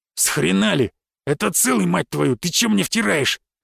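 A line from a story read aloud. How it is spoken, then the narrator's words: Indignant outburst. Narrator (Russian): Возмутился бандит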